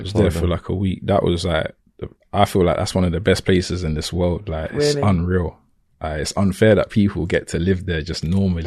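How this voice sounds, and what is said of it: English Cockney London accent. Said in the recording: “Were they buzzing off your English accent? ... they love Cockney accents ... we're from London”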